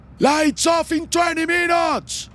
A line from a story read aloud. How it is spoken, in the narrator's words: an officer yells from the hallway into the cell